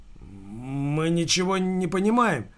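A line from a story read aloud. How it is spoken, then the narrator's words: Mumbling into phone. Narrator (Russian): промямлил Андрей в трубку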